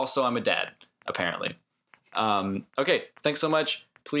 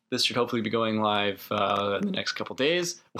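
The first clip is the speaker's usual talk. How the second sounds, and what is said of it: Voice cracks mid-sentence. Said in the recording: “my voice just cracked. Did you hear that? ... I'm 21 years old”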